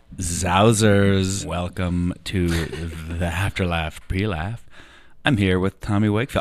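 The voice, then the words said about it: Hoarse, raspy voice. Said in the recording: “I like my voice today... I screamed... just a little bit of hoarseness... a little bit of yeehaw in there... a little bit of like rasp”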